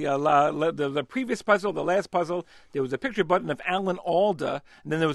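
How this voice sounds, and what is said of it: New York accent. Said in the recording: “it's my New York accent”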